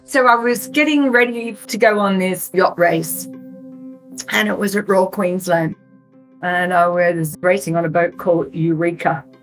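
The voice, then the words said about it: Speaks with a noticeable accent. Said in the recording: “With ... accent, it sometimes sounds like Damon.”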